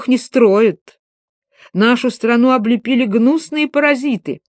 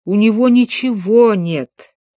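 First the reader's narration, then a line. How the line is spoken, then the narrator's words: Moaning old man. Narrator (Russian): простонал дядюшка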